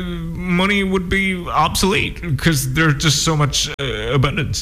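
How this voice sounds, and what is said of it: Imitates another person's voice. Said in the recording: “my Elon Musk impression”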